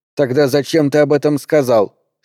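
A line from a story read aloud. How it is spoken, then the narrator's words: Angry question. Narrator (Russian): сердито спросила Мария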